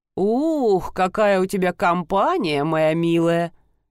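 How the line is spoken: Near-purring young man. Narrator (Russian): Едва ли не промурлыкал молодой человек

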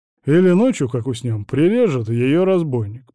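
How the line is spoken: Muttered. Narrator (Russian): пробурчал Василий

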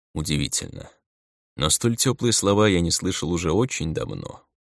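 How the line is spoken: Sad wry chuckle. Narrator (Russian): грустно усмехнулся мистер Шерлок

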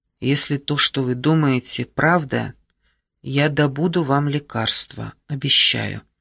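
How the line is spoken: Quiet but determined. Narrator (Russian): проговорил тихо, но решительно

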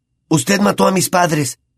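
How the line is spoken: Slightly trembling voice. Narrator (Spanish): dijo Harry, con voz algo temblorosa

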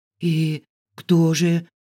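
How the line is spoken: Hoarse, dry-throated with excitement. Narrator (Russian): прохрипела я пересохшим от волнения горлом

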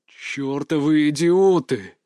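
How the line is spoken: Angry growl. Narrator (Russian): зарычал

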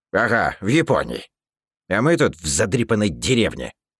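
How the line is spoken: Grumbling gingerbread. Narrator (Russian): Проворчал пряник

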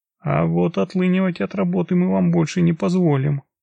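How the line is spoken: Calm. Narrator (Russian): ответила я спокойно

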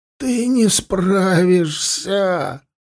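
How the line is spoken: Groaning. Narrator (Russian): Простонал Тулум

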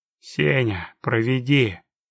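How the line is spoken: Grumbling orc. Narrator (Russian): буркнул старший орк

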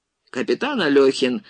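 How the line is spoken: Irritated. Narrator (Russian): раздраженно продолжал Егоров

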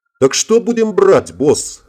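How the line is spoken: Chuckling. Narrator (Russian): хохотнул Ингвар

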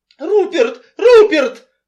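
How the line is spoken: Squeal. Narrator (Russian): взвизгнул Энси

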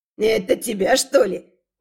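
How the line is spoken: Older man's snort. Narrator (Russian): Мой пожилой спутник хмыкнул

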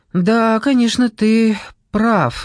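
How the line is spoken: Sigh. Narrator (Russian): вздохнула Клея

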